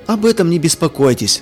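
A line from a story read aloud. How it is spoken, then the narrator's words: Plain. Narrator (Russian): ответил хозяин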